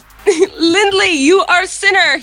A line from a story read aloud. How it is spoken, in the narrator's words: he hollered